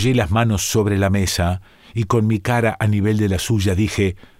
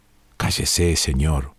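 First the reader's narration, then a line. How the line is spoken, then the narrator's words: Murmured. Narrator (Spanish): murmuró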